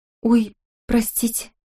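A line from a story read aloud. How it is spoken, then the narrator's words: Mumble. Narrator (Russian): пробормотала Лени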